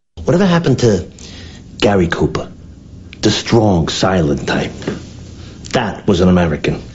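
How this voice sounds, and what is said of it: Light New Jersey accent. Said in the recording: “This is the New Jersey accent. This is season 1 where it was a little more light.”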